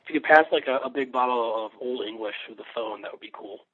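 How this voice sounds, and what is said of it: Raspy, hoarse voice. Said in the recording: “You're sounding a little bit, ... I get that raspy voice sometimes when I'd rather be drinking or sleeping ... I've got a little bit of a cold.”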